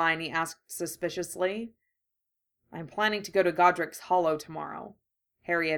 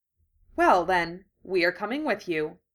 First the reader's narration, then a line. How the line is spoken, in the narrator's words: Hermione said firmly